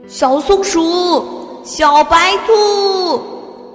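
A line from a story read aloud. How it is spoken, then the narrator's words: Calling out names. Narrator (Chinese): 陆老师和同学们 叫着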